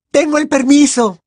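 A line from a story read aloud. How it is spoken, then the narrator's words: Exclamation. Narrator (Spanish): exclamó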